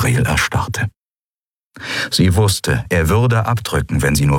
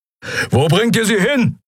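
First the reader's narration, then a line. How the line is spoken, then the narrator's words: Roared. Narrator (German): brüllte Keru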